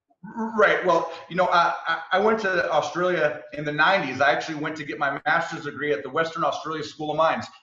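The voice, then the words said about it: American accent. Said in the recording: “you've clearly got a non-Australian accent ... he's got an American accent.”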